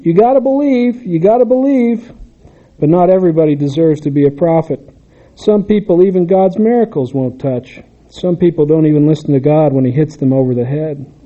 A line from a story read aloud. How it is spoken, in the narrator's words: I yelled after him